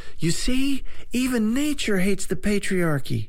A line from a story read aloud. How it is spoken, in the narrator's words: someone cried out